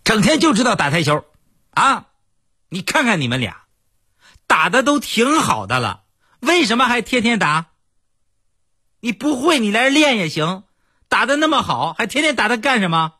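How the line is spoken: Angry shouting woman. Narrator (Chinese): 我媳妇儿对着我俩就喊

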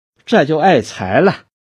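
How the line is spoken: Laughing. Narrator (Chinese): 杨秀英笑道

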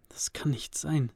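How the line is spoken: Soft, quiet. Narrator (German): sagte Cody leise

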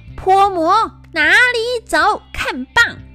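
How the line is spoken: Loud battle shout. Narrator (Chinese): 孙悟空大叫

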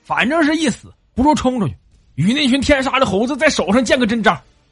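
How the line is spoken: Rowdy clamoring. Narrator (Chinese): 黑子在那里唯恐天下不乱的嚷嚷说

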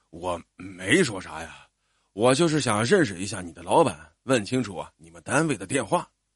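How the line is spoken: Soft, sheepish. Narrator (Chinese): 这句话吓着爸爸了，他像一个做错事的孩子似的，轻声说

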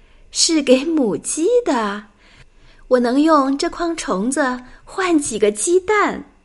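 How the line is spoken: Laughing. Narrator (Chinese): 贝琳达笑着说

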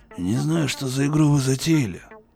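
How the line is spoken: Grumbling bulldog. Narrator (Russian): проворчал бульдог

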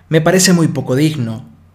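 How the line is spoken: Plain. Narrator (Spanish): dijo Miss Brent

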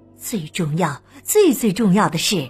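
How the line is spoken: Very serious, catching breath. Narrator (Chinese): 他才喘了口气，语气特别严肃的说

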